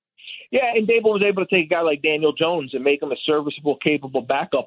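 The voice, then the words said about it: Slight Philadelphia accent. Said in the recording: “am I detecting some Philly in that accent a little bit?”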